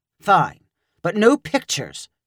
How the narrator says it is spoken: Stefan snapped

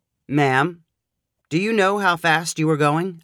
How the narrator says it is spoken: asked Broderick

